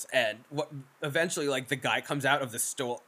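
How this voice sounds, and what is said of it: Strong New York accent. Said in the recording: “my New York accent was flying out of my mouth ... Because I heard stool”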